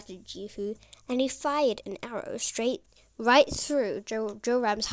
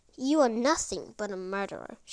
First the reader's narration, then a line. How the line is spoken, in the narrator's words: she spat